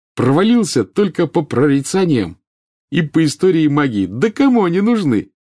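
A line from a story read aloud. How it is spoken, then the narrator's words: Cheerful. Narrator (Russian): весело сказал он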